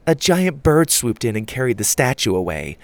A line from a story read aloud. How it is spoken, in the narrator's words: Susie said sarcastically